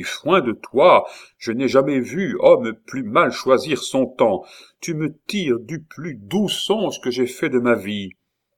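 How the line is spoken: Exclaiming. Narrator (French): s'écria Henri

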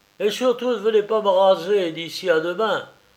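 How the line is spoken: Shouted. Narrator (French): cria Raffles au docteur

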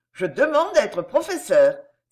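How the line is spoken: Exclaiming. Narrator (French): s'écria Paul de Comprat

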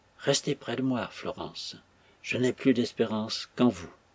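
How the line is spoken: Softly spoken. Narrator (French): elle disait tout bas à son visage assoupi

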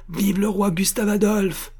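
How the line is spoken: Impetuous shout. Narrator (French): cria la voix impétueuse d'Armand Louis

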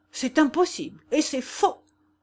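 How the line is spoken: Indignant exclamation. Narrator (French): s'écria le Porpora indigné

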